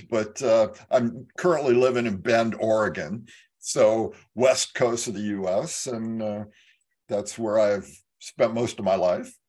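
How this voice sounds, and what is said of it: American California accent. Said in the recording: “fantastic accent of yours that you're probably from over the pond ... that might be a California accent”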